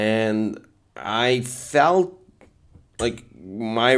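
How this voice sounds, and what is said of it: Usual voice. Nothing is said of it.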